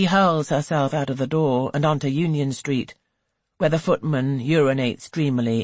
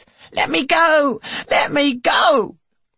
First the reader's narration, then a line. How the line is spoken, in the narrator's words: the wretched board has completely lost her composure and yelps